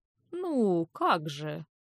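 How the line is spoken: Mumbling. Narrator (Russian): пробормотал он

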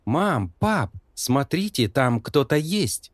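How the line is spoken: Exclaiming. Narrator (Russian): воскликнул Лоренс

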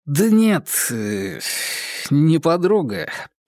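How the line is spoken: Muttered. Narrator (Russian): пробормотал бывший муж

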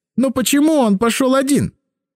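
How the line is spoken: Shouted out. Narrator (Russian): Последние слова он буквально выкрикнул

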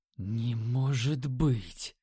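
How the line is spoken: Whisper. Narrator (Russian): прошептал я

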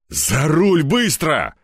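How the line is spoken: Barking. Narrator (Russian): рявкнул

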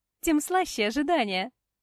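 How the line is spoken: Laughing girl. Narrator (Russian): засмеялась девушка

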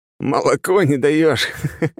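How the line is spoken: Joking. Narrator (Russian): отшутился Кипа

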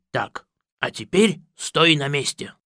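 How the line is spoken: Hissed. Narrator (Russian): прошипел Пыф

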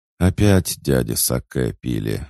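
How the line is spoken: Sighing. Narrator (Russian): вздохнула девушка

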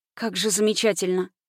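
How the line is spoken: Whispered. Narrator (Russian): прошептала

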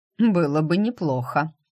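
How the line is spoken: Groom's snort. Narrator (Russian): хмыкнул жених

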